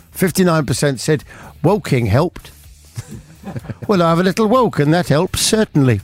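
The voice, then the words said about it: Put-on accent while reading. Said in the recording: “How can you get that accent from the page?”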